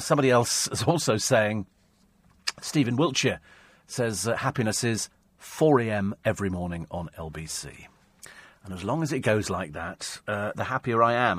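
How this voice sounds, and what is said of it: Sniffly, congested voice with sniffing. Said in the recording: “I'm on Benlin day and night tablets at the moment. And look, that's how sniffy I am. I cannot stop the sniffing bit.”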